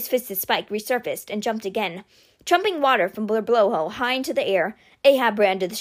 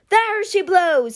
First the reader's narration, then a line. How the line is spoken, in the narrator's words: he cried